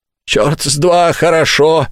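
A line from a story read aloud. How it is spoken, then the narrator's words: Yelled. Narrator (Russian): заорал Филд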